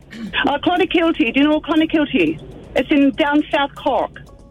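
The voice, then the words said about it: Irish accent. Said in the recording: “An accent. ... You're from Scotland. ... No, Ireland. ... Do you think she's putting on an accent?”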